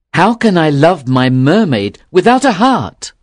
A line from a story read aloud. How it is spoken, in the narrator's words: cried